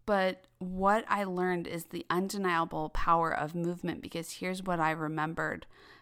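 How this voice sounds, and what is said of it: Voice audibly strained, asthmatic. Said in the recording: “I'm sure you can hear in my voice, I'm still struggling with my asthma. My asthma is still very much active.”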